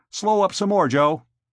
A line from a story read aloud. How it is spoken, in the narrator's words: Mike said sharply